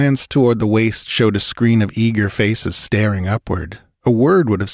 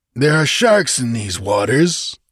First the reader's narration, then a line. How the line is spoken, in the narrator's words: growled Zaparavo